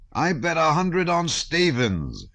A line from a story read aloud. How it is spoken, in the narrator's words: shouted